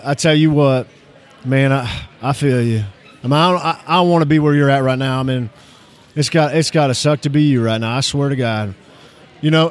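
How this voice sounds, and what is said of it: Put-on Texas accent. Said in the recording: “hear the difference in my accent ... I feel like we're in Texas all of a sudden.”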